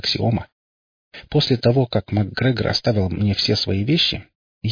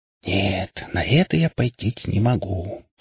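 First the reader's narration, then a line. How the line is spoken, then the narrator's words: Smirking whisper. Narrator (Russian): прошептал я, ухмыльнувшись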